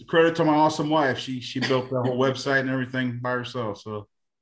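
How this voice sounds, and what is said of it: Texas accent. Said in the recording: “you're not from Texas, are you? ... The accent.”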